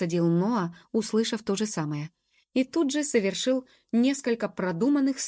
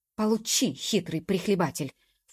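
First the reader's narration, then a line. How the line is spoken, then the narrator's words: Pleased half-voiced mutter. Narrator (Russian): в полголоса пробормотал да нельзя довольный собой Ноа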